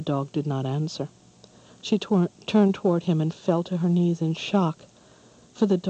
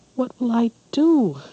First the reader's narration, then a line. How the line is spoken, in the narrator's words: cried again